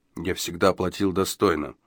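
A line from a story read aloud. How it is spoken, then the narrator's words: Repeated in undertone. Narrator (Russian): вполголоса повторял он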